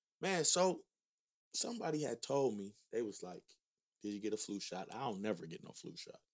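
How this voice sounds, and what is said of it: Sick, rough-sounding voice. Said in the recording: “Your voice a little... getting over a little cold. So my voice is what it is.”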